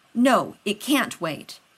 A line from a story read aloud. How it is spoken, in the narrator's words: Rodney snapped